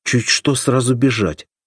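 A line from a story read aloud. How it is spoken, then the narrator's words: Angry. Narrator (Russian): сказала сердито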